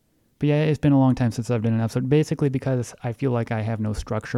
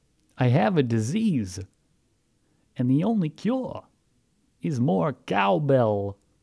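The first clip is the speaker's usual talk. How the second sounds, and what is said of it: Christopher Walken impression. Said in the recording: “like Christopher Walken's... That, unfortunately, is my best impersonation of anything.”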